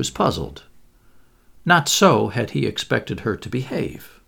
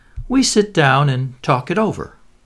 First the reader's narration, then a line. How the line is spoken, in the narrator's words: said sweetly